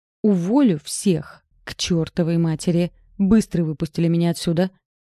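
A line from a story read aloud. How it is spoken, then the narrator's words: Shriek then growl. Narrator (Russian): заверещала я … зарычала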